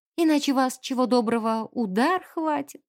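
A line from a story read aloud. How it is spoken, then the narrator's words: Dreamy, wishful tone. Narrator (Russian): Это было сказано таким мечтательным тоном, словно сердечный приступ бедолаги полковника был самым заветным ее желанием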